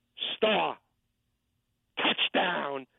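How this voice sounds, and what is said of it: Imitates a sportscaster's call. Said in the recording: “my Ray Scott imitation of the call ... Here's how he says it.”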